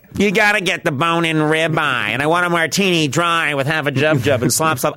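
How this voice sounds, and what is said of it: Imitates another person's voice. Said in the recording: “suddenly I'm doing, my Roseanne impression”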